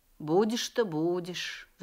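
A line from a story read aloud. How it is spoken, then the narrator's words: Sigh. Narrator (Russian): вздохнул Дед Мороз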